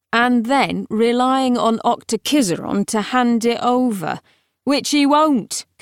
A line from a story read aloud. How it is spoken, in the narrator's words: concluded Palamedes triumphantly